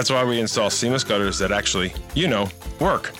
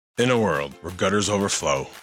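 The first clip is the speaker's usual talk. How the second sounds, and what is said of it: Dramatic movie trailer narrator voice. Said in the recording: “doing the movie trailer voice”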